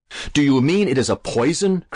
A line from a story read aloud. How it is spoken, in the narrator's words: cried Alan, very much horrified